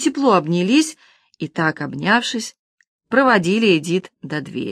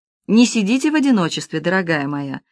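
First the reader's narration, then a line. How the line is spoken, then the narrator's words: Plain. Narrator (Russian): сказала миссис Пьюси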